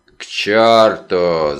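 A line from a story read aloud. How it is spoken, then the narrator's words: Grumbled. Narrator (Russian): заворчал Вульф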